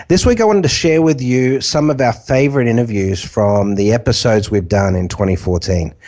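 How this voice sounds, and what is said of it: Slightly congested voice. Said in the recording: “I've got a bit of a cold,”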